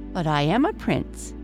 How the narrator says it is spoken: answered

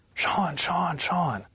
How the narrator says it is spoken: came running and screaming my name

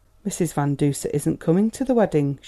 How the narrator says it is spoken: she said in a faintly defiant tone

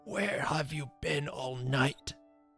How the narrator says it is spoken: he half whispered, half croaked with an agonizing effort

